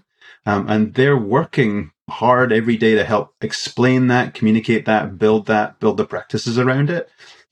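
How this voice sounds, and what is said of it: Scottish accent. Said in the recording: “the Scottish accent,”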